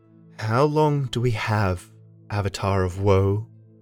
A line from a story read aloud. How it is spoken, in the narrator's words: I asked in the lilting voice I'd been taught to use